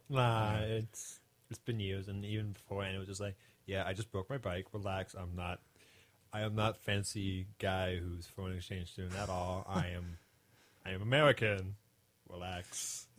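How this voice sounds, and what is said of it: Suave-sounding foreign accent. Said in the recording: “this wonderful foreign accent ... You have this really suave sounding ... the bike accent”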